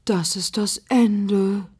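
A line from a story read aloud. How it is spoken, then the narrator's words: Sighing. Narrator (German): seufzt Tante Euphrosine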